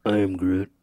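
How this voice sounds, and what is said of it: Imitates another person's voice. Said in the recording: “your best Vin Diesel impression”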